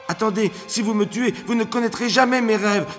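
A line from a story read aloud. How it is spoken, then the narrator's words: Shouted. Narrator (French): cria Emrys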